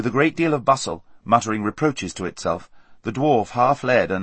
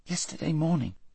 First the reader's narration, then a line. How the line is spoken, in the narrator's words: said Shasta weakly